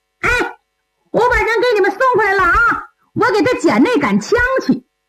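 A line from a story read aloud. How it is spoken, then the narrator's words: Shrill voice. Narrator (Chinese): 尖声尖气说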